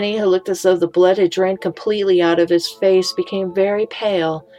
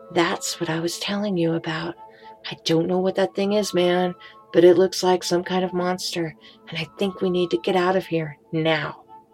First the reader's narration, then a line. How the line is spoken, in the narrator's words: Warily, Jacob whispered